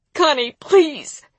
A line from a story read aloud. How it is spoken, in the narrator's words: she sobbed